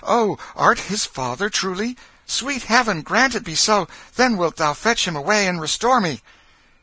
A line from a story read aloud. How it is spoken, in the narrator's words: eagerly said